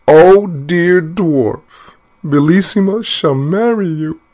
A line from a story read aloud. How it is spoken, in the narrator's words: the poor queen, who was trembling like a dove when it sees a hawk, cried out as loud as she could